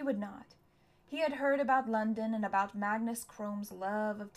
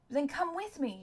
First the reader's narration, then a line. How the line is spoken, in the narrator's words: had pleaded